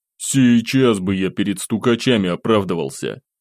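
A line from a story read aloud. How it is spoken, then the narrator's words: Provocative snort. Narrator (Russian): фыркнул я, намеренно провоцируя парней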